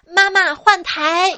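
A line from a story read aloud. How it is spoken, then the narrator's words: Loud. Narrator (Chinese): 大声的说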